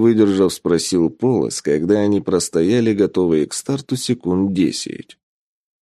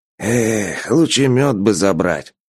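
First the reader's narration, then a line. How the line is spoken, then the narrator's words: Dreamy sigh. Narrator (Russian): мечтательно вздохнул Полос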